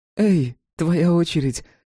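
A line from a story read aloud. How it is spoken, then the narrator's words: Joyful call. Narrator (Russian): радостно позвала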